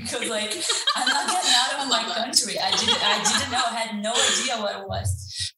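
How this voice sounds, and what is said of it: Speaks English with an accent. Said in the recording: “I don't know if my accent will help with this word”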